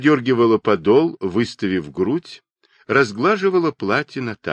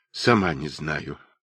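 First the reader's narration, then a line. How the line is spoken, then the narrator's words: Muttering. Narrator (Russian): пробормотала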